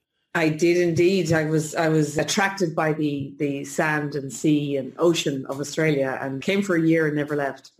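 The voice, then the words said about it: Slight Irish accent. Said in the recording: “there's a bit of an Irish lilt coming through”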